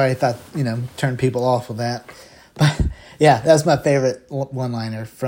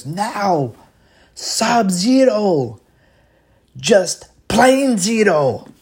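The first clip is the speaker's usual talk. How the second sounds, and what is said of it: Imitates another person's voice. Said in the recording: “That's my best impression.”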